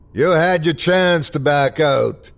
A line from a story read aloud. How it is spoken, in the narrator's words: screamed the bartender